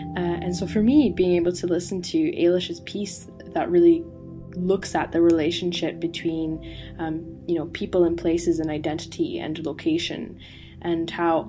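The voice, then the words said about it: Canadian accent, not Scottish. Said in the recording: “I don't have a Scottish accent. I am from Canada”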